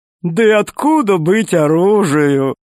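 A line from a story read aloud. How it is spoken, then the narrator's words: Laughing fat man. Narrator (Russian): засмеялся толстяк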